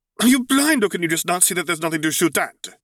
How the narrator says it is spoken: he retorted indignantly

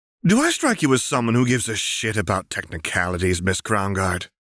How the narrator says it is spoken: Ren asked, still cheerfully smiling, but there was something deeply wrong with her tone

